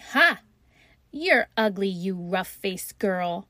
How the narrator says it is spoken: those two older sisters laughed after saying

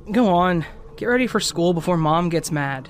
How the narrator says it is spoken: chuckled

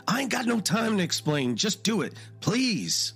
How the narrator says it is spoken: Walter yelled

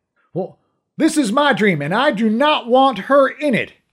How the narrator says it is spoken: he shouted

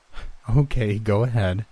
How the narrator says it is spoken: mom said, giggling

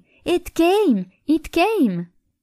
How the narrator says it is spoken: she happily raced down, exclaiming

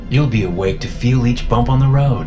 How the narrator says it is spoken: I said cheerfully

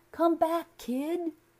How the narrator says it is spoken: Stuart cried

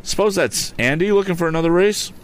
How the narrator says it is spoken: Ned called out

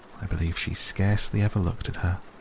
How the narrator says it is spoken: sighed Mrs

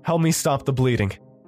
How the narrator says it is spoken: Oliver shouted towards me

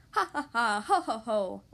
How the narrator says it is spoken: laughed the 2 little pigs

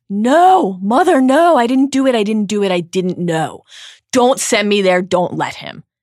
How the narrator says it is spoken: the boy screams

